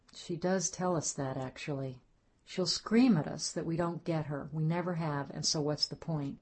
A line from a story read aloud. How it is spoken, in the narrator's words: Ruth said softly